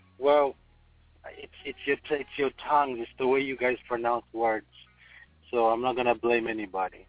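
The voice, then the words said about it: Ugandan English accent. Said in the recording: “he's actually not from here, if you can hear his accent ... I'm from Uganda”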